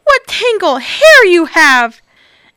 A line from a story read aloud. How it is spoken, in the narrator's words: cried the Little Red